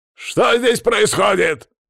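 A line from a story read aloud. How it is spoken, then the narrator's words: Barked shout. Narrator (Russian): гаркнул я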